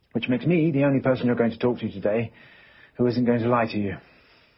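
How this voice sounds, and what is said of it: Non-American accent. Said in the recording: “You can probably tell from my accent, I'm not a New York City police officer”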